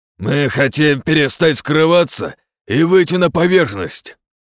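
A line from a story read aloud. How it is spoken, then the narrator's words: Hoarse growling voice. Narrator (Russian): Тишину аномалии разорвал хриплый рычащий голос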